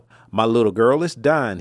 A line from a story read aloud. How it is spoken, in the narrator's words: said